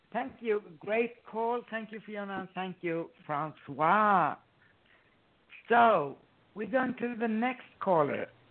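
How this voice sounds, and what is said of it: Hoarse, strained voice. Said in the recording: “I'm sorry, I lost my voice here.”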